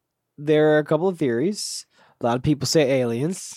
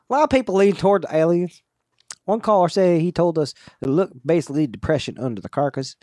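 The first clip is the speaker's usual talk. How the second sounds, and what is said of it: Imitates another person's voice. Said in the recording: “do my best impersonation to Dan here”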